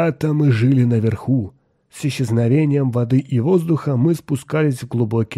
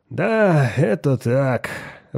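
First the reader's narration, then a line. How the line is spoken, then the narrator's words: Sigh. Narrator (Russian): вздохнул Рэб Селл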